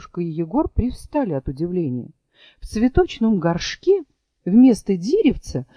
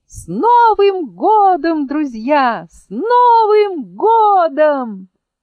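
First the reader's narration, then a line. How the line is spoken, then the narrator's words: Ringing cheerful shout. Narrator (Russian): чей-то звонкий голосок весело крикнул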